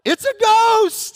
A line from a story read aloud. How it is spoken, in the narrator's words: they cried out in their fear